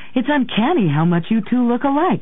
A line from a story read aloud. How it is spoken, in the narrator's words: exclaimed the hairdresser